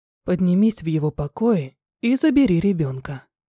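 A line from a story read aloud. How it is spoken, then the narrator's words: Perfectly calm. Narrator (Russian): сказал он так спокойно, будто ничего и не случилось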